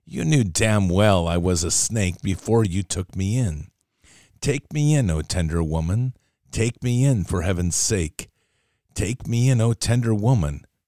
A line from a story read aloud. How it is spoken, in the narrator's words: sighed the snake